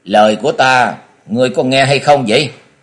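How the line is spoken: Angry, stern woman. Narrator (Vietnamese): Trung niên thiếu phụ thấy hai người đứng lặng yên không hề trả lời thì có vẻ tức giận rồi nghiêm giọng nói

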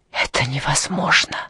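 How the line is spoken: Breathless gasp. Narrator (Russian): выдохнула она

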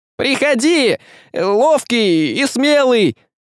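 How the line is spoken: Loud, smiling. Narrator (Russian): Улыбнулся и громко сказал

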